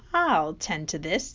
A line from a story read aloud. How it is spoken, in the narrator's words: he chuckled